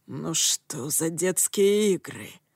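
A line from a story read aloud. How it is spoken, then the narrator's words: Growled. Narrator (Russian): прорычал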